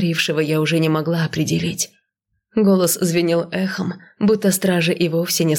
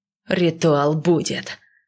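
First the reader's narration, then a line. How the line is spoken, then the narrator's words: Growling. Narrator (Russian): прорычал Алиш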